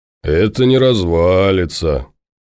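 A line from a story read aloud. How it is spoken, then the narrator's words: Reverent hoarse drawl. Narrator (Russian): благоговейно протянул хриплый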